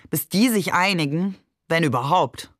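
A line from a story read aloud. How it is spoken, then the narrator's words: Mocking. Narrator (German): sagte spöttisch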